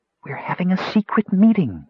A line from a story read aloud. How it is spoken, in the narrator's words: whispered Rainspot